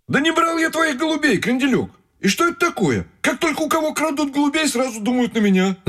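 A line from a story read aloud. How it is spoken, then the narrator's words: Shouting. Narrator (Russian): закричал Тимоха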